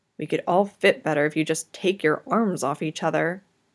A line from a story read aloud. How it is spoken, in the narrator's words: still slender and graceful, grumbles